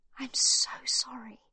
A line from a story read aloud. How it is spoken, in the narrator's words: Magda whispers